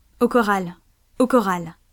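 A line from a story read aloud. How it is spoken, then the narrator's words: Sailor's exclamation. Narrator (French): s'écria le marin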